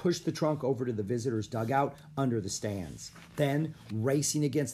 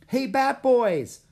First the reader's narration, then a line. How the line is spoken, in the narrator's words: a girl yelled